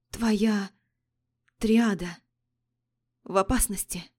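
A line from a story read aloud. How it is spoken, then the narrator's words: Hoarse voice. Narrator (Russian): как-то хрипло выдала Адель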